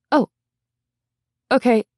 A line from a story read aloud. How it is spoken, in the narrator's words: stammered